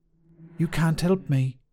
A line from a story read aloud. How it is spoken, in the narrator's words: Aiden whispered